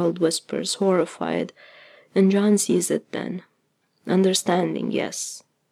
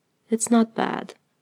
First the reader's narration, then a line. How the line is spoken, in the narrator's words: he says gently